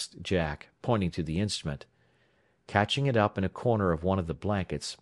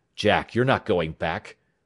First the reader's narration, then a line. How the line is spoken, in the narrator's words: said his father sharply